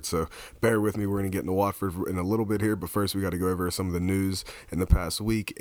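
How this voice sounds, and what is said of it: Strained, cold-affected voice. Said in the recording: “I apologize for my voice. I got a little bit of a cold, and I was screaming”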